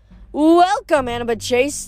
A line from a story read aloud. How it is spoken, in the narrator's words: the monster cried